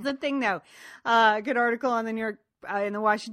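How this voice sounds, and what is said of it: Usual voice. Nothing is said of it.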